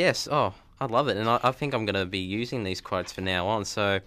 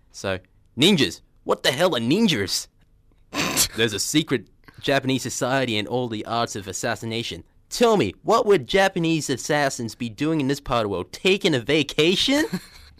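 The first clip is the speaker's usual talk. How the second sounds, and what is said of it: Cowboy character voice. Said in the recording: “one of the characters, Wild Bill ... He's a cowboy ... I'll put on my voice.”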